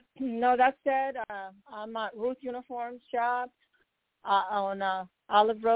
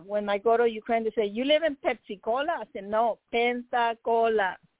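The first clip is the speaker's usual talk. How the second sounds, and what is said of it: Put-on Spanish accent. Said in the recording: “She said with a Spanish ... accent.”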